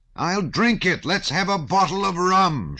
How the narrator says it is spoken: shouted Pierre, banging the table with a determined and drunken gesture

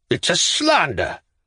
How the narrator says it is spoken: roared tragically

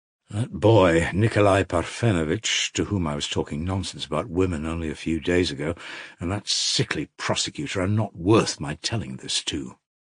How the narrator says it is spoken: reflected mournfully

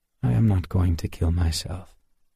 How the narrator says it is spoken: Schwartz replied calmly

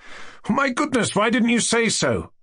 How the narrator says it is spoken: I cried, with an astonishingly free and easy air

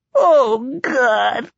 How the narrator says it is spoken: she cried

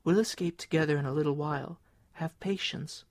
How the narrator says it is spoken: she whispered to him

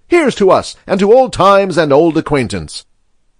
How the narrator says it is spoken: said Ignatius Gallagher cheerfully

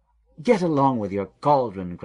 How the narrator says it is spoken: cried the king

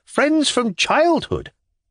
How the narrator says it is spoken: he cried

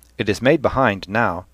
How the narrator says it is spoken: said Stephen hotly

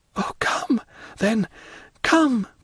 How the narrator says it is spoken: cried she

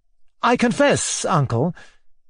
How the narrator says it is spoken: said Mozgliakov, as calmly as he could, though his voice shook with agitation

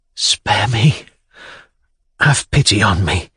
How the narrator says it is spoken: whispered, controlling his trembling voice

